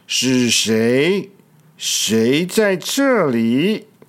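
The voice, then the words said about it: Scary, menacing character voice. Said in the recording (Chinese): “用很可怕的声音说”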